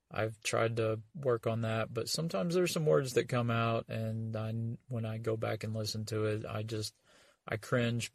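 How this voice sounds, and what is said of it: Rural hick accent. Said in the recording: “my voice isn't the best. I know I've got a hick accent.”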